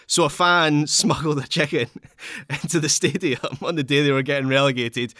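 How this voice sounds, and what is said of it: Glaswegian Scottish accent. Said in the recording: “accent ... That absolutely sounds like Glaswegian slang”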